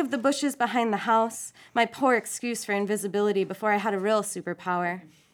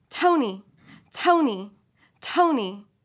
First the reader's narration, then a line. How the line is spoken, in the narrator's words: She barks my name so it sounds like toe and knee